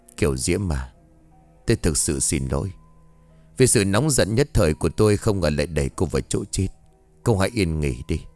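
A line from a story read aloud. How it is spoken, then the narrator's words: Remorseful muttering, old man. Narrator (Vietnamese): Đứng trước tấm di ảnh của Kiều Diễm, ông Thịnh … miệng lẩm bẩm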